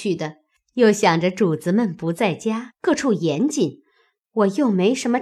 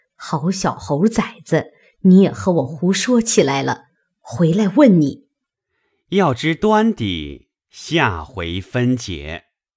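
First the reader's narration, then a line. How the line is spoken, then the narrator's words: Laughing. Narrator (Chinese): 那柳家的笑道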